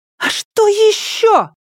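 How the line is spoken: Shrill squeal. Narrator (Russian): голос ее взвизгнул

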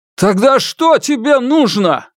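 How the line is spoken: Shouting. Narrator (Russian): Сун Дачунь закричал

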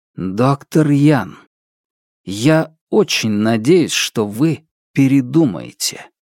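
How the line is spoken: Young man, slow and distinct. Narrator (Russian): Юноша произнес медленно и отчетливо

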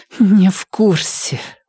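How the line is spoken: Forced through gritted teeth. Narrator (Russian): выдавила сквозь зубы Сунь Мэй

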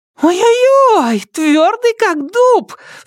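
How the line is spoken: Squeal. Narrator (Russian): взвизгнула Ка

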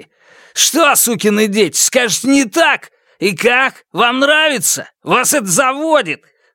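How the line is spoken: Yelling. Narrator (Russian): Заорал он

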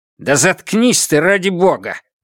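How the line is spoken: Barked. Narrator (Russian): рявкнул Джен Линь

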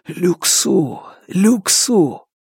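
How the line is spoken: Whisper in ear. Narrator (Russian): Фан Му прошептал ему на ухо

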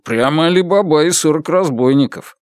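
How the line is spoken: Laughing. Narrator (Russian): Фан Му засмеялся

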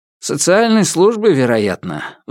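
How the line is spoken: Sigh. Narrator (Russian): вздохнул Ван

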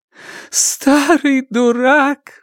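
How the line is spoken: Sobbing, shaking. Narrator (Russian): всхлипывала Ян Минь, всем телом содрогаясь

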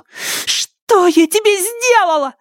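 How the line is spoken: Angry shriek. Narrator (Russian): визжала она, охваченная гневом

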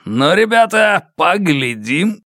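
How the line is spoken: Shouted to a gang. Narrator (Russian): крикнул своей банде

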